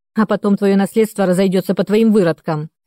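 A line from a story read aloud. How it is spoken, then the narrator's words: Mother barking. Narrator (Russian): рявкнула мама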